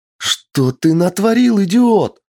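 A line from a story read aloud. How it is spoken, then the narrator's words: Shouting. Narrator (Russian): закричала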